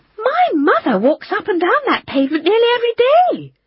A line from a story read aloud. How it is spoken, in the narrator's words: said indignantly